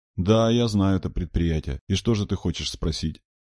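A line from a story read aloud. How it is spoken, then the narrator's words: Even, level voice. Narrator (Russian): Бубнов ровным голосом произнес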